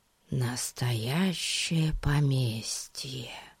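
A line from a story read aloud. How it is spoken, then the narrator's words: Whispered. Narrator (Russian): прошептал Пип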